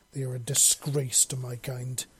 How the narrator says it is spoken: she said angrily

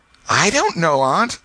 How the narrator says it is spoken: gasped the boy

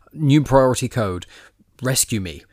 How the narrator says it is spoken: as she's being taken away, she immediately yells

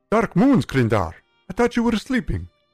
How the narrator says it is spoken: Singe blurted

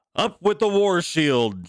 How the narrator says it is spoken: shouted King Harald

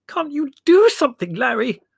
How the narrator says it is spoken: Mother squeaked

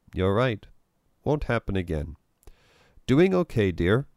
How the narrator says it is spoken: he asked Melinda

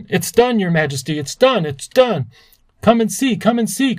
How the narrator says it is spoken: cried the little flukes

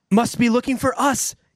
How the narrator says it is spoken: gasped Joe

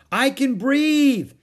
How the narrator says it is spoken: Annie yelled

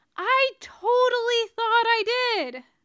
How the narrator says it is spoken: Tony yells back

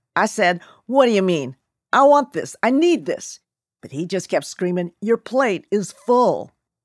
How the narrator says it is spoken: Lo Bue recalled in his booming Jersey brogue

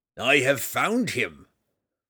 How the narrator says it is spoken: Roddy roared

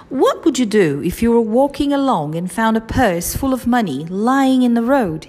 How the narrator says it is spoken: he asked

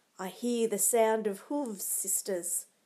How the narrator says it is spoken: she said

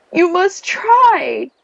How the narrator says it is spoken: shouted back in tears

